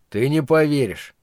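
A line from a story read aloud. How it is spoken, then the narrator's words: Gloomy reply. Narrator (Russian): мрачно ответил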